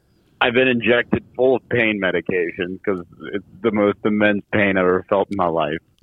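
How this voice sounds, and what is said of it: Weird, loopy drugged-sounding voice. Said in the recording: “you sound so weird ... You're all loopy on painkillers.”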